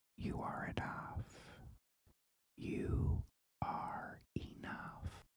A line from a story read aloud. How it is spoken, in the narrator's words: the child whispers